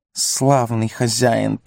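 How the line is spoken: Hiss. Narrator (Russian): прошипел он

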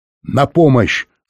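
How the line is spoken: Shouting. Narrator (Russian): снова крикнул он

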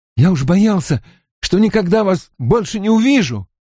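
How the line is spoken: Strained, forced out. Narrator (Russian): выдавил он наконец

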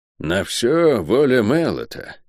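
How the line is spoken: Sighing. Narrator (Russian): вздохнул Атор

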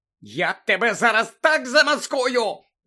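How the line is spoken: Shout. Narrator (Ukrainian): закричала місіс Фіг

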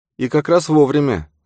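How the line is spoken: Sigh. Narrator (Russian): вздохнула Келли

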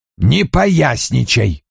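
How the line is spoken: Through clenched teeth. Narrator (Russian): процедил Вульф

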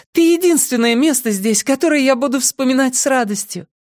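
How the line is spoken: Laughing. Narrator (Russian): Она засмеялась

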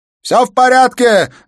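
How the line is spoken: Shouting. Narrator (Russian): закричал он

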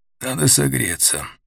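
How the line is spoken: Hoarse. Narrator (Russian): объяснил он хрипло

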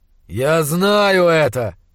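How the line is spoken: Growling, losing control. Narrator (Russian): зарычал он в ответ, не в силах больше сдерживаться

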